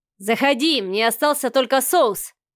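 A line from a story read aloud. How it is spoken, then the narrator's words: Oddly pleased shout. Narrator (Russian): странно довольным голосом прокричал Савелий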